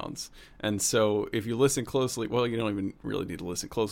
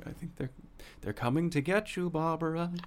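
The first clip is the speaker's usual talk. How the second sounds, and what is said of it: Imitates a horror movie character. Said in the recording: “that was a good impression... That was pretty solid.”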